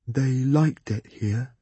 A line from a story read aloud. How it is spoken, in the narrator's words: he said softly